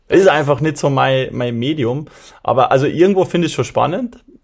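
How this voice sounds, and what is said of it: Austrian dialect. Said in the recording (German): “Hoffentlich können die Leute dich überhaupt verstehen mit deinem Dialekt ... die Österreicher machen das schon.”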